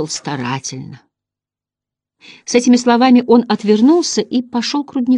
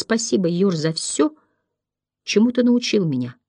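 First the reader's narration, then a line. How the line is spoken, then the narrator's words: Quiet boy's voice. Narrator (Russian): Мальчик, у которого больше не было имени, тихо сказал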